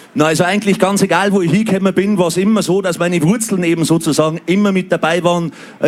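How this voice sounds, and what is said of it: Lower Bavarian dialect. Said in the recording (German): “der Dialekt natürlich sowieso. Und ich glaube, einmal ein Niederbayer, immer ein Niederbayer”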